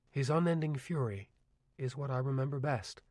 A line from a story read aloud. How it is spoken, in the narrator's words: LeBay repeated softly